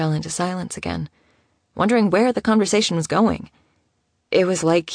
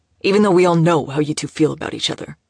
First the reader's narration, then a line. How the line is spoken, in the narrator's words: spat out, almost angrily